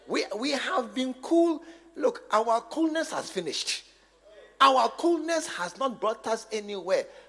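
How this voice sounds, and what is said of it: Loud shouting preaching. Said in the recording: “why are you shouting? Because I'm now beginning to shout.”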